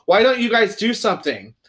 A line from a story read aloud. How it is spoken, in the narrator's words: she shouted